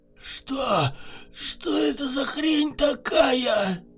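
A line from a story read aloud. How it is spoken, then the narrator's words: Gasping, hoarse wheeze. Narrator (Russian): Судорожно глотая воздух, прохрипел Егор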